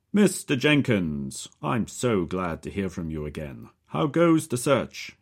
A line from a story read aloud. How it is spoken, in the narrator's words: he thunders